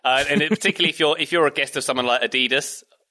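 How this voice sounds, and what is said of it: Brief put-on American accent. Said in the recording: “I just slipped into my American accent for a moment there.”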